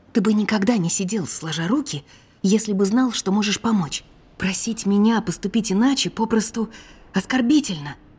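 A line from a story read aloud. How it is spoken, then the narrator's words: Whispered. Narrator (Russian): прошептала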